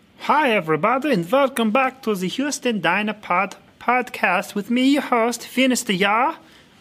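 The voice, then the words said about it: Put-on Norwegian/Swedish accent. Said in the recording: “Working on my Norwegian accent there for y'all. Working on my Norwegian accent, my Swedish accent”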